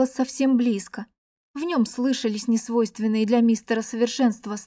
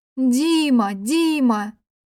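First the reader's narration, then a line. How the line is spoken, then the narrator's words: Exhausted scream, choking on water. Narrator (Russian): Закричала из последних сил и захлебнулась соленой горькой водой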